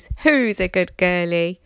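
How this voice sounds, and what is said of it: Imitates a dad's voice. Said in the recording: “in my dad voice.”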